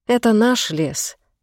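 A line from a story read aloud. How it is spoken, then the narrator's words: Explaining with tender smile. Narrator (Russian): пояснила Калина, улыбаясь ласково-ласково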